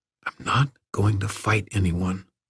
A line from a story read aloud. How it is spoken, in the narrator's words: Erwin all but whispered